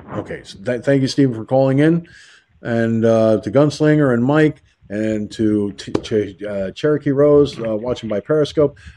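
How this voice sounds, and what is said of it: Tired, slightly raspy voice. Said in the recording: “my body is starting to run out of steam and my voice is starting to get a little raspy.”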